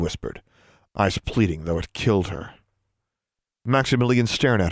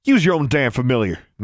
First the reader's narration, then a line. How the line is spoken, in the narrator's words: Maximilian snapped